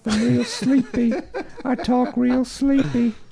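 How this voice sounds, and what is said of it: Put-on Southern US accent. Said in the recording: “that southern accent”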